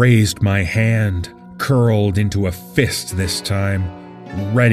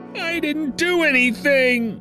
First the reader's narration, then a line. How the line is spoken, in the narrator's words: wailed